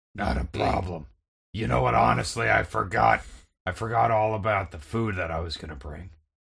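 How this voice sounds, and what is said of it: Hoarse, altered character voice. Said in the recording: “You sound a little hoarse... you sound a little different”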